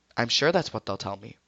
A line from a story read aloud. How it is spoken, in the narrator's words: said calmly, making it clear that he wouldn't believe it, no matter who told him